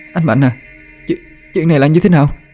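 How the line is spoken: Stammering. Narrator (Vietnamese): cô ... miệng thì lắp bắp

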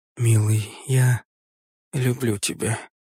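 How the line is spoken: Quiet, to herself. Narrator (Russian): тихо сказала про себя

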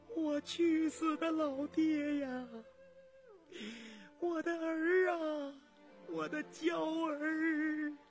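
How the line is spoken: Miserable wailing. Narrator (Chinese): 凄惨的哭声

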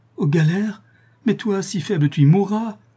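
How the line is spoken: Sobbing anguished cry. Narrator (French): s'écria la malheureuse femme en éclatant en sanglots

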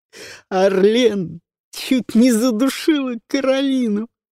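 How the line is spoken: Spoken through laughter. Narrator (Russian): сквозь смех произнесла Люси

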